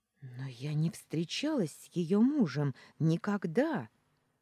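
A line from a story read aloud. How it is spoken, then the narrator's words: Horrified breathless exhale. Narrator (Russian): Выдохнула, ужасаясь ситуации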